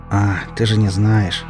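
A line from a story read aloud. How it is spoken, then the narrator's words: Tired wincing. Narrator (Russian): устало поморщился я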